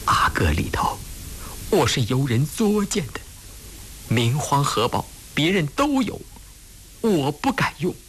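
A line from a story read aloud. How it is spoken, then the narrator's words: Crying, tearful. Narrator (Chinese): 胤祥说完就哭了……擦着眼泪说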